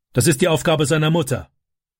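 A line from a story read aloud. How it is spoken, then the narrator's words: Angry reply. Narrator (German): antwortete Vater wütend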